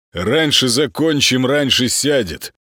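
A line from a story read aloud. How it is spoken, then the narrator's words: Pleased correcting, chuckling. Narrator (Russian): поправил Молчин и довольно хмыкнул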